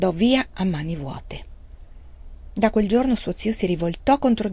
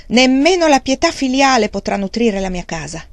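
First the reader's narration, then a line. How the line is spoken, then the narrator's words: Shouted. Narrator (Italian): Wang Lung gli gridò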